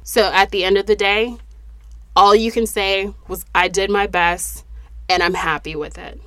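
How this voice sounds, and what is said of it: Unwell, congested-sounding voice. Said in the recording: “I hope that my voice is back to normal and I can breathe in the next episode.”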